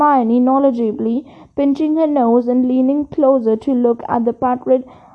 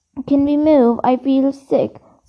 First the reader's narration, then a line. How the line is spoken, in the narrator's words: said Ron